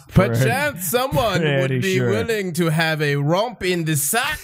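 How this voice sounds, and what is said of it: Old-timey affected gentleman's voice. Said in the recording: “You are the worst at accents ever ... That's my old timey gay voice”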